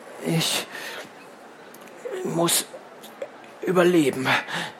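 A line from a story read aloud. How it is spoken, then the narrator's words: Stammering. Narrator (German): stammelte Cliffhanger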